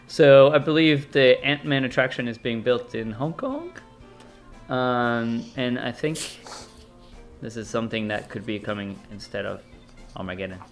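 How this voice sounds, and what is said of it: American accent. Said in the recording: “my weird American accent”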